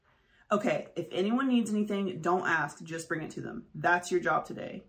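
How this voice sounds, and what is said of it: Stern voice. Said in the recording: “Carol spoke in a stern voice”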